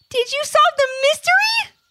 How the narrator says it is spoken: shouted

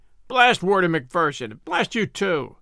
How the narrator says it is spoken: yelled the convict, in a paroxysm of rage

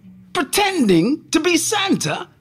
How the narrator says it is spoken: Santa said angrily

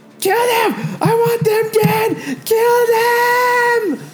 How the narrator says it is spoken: she's beginning to scream and yell, as she's screaming

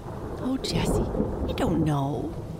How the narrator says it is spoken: murmured Amy

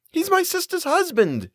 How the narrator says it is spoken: she wailed

